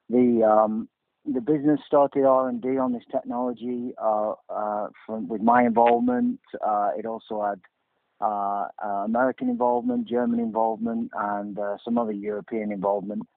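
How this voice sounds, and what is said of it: British (UK) accent. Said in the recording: “began its life over in the UK, as I'm sure most of you will be able to tell from my accent”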